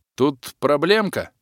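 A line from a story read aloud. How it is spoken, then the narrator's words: Snort. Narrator (Russian): фыркнул я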